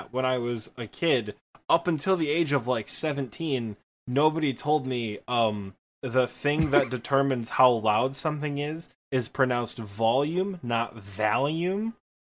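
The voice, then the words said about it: Thick Midwestern Michigan accent. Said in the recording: “I have a very thick Midwestern Michigan accent”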